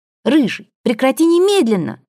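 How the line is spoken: Group shrieking. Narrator (Russian): визжали мы

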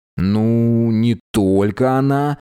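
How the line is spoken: Drawling. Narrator (Russian): протянул Тепик

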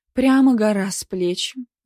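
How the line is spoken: Sighing. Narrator (Russian): вздохнула Звонарева

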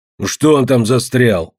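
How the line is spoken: Grumpy bark. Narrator (Russian): рявкнул ворчун

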